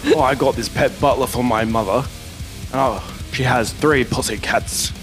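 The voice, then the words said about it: Deep-voiced comic character voice. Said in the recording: “Barry's got a deep voice.”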